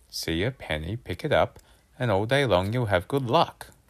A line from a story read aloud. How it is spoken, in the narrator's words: muttered to myself